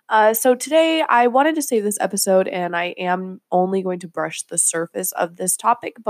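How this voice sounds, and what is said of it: Voice affected by a cold. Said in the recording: “I am coming off from a cold, so I am sorry for my voice if it's a little today”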